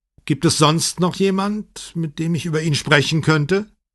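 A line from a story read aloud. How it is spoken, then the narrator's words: Calling after someone. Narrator (German): Brunetti rief ihm nach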